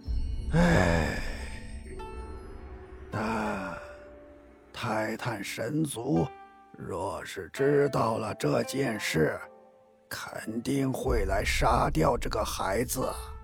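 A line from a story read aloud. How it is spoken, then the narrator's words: Older dragon sighing. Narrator (Chinese): 一个年纪稍长的龙族叹了口气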